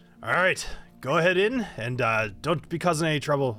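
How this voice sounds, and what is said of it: Put-on Scottish accent. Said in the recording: “why am I talking Scottish?”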